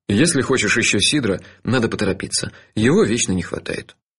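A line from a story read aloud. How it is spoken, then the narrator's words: Casual announcement. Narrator (Russian): объявил мой спутник ... будничным тоном добавил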